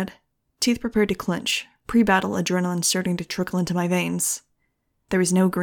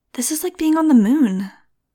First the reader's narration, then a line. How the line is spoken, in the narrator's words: Nudge said in an awed voice